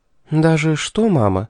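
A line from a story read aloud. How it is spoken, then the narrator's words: Very soft question. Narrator (Russian): очень мягко спросила Шарлотта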